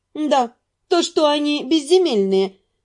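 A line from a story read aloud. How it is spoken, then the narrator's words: Mocking reply. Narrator (Russian): в той же степени насмешливо откликнулась наемница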